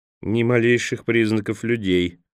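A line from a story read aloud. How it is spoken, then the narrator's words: Grumbled again. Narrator (Russian): опять проворчал Джанни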